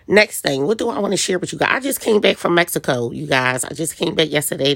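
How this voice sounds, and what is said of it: Voice sounds like a cold. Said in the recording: “That's why I sound a little, I have a little cold.”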